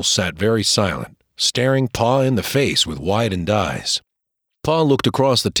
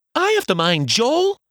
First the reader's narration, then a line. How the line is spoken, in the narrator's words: exclaimed Martha